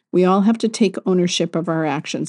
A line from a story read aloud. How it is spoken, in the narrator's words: said